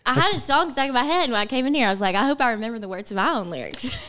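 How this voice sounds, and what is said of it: Alabama accent. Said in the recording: “it's my accent ... I have the same accent ... You're from Alabama”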